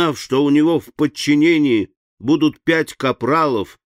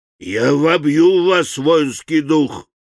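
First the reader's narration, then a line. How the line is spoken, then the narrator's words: Hoarse commanding bass growl. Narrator (Russian): рычал полководец хриплым начальственным басом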